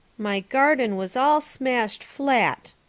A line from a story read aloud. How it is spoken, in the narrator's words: he continued mournfully